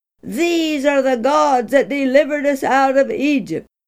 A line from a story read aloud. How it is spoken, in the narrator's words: They shouted